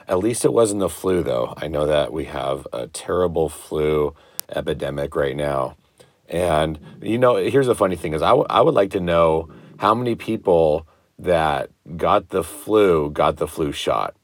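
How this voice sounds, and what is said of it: Congested voice from a cold. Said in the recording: “as you can probably tell from my voice, I finally caught this crazy cold”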